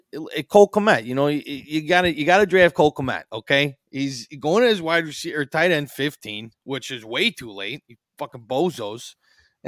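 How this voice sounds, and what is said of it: Put-on accent. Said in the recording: “put on the accent”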